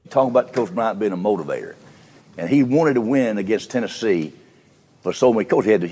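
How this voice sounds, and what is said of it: Bear Bryant impression. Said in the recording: “doing his best Bear Bryant impersonation”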